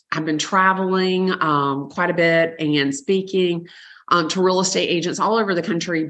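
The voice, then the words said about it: Hoarse voice from laryngitis. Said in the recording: “I've got a little laryngitis. If I sound a little off, that's what it is.”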